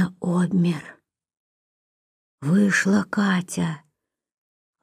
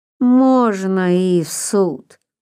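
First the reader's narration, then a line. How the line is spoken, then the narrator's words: Lazy agreement. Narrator (Russian): лениво согласился приезжий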